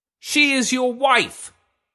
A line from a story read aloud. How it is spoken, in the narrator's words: he shouted